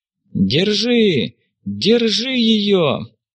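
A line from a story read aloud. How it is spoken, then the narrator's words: Shouting from street. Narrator (Russian): Кричали на улице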